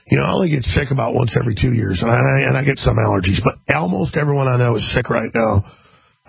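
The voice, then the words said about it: Gravelly, sick-sounding voice. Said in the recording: “I'm not trying to talk like Clint Eastwood here. This is where my voice is at right now... I know this voice. It's a weird voice”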